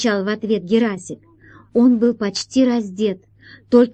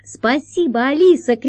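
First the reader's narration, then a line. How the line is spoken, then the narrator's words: Shouting. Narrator (Russian): крикнул он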